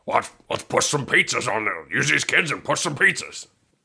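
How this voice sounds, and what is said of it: Impression of Pope John Paul II. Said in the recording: “that's a great John Paul impersonation ... That was John Paul II.”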